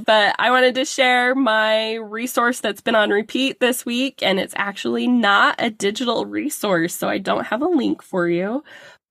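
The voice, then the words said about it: Voice sounds different, has cold. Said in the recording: “apologize for my voice a little bit. I have a cold ... my voice sounds a little bit different”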